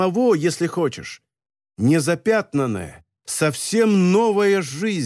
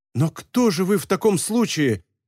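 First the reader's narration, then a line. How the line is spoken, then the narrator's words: Bewildered exclamation. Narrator (Russian): в растерянности воскликнул молодой человек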